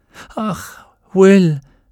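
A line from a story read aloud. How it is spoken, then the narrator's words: Sighing. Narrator (German): seufzte sie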